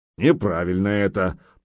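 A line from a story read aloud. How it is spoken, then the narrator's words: Grumbled. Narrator (Russian): проворчал Гудмунд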